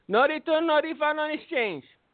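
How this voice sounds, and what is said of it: Put-on Mexican accent. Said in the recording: “I don't know why he sounds Mexican in my head, but he did... I can do a Mexican accent.”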